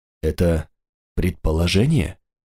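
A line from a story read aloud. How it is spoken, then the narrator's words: Slightly trembling voice. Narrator (Russian): поинтересовался он чуть дрогнувшим голосом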